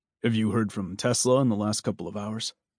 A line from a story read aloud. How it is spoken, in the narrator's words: Swede asked in a low voice